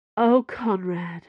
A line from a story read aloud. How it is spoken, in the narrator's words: she sighed